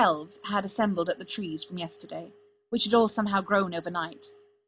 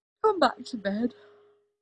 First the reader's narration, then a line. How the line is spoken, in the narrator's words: Merlin, who just yawned at him, pink and unconcerned, and said drowsily